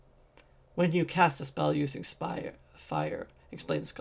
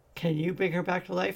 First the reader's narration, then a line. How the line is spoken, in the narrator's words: asked Felden, his voice catching